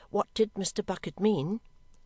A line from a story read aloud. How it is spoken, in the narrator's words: Snagsby looked rather alarmed, relented a little, and faltered